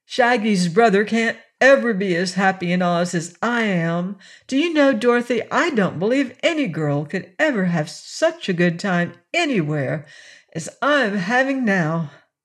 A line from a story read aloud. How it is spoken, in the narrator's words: Presently, Betsy exclaimed